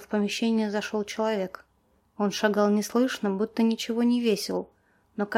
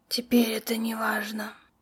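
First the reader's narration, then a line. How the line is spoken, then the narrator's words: Hoarse whisper. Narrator (Russian): сиплым голосом прошептала женщина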